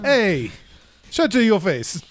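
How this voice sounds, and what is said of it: Odd unplaceable put-on accent. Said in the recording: “I don't even know what accent that is from. ... It sounds like another language.”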